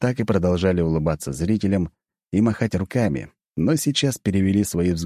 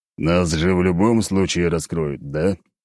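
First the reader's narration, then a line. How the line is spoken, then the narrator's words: Through gritted teeth. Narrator (Russian): процедил Леонид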